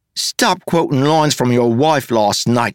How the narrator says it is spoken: she snapped

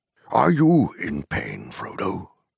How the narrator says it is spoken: said Gandalf quietly

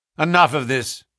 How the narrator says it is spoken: said my friend coldly

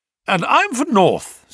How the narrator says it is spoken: said I

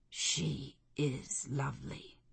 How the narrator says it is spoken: he murmured

